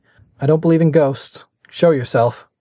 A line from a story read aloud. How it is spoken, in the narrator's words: called out calmly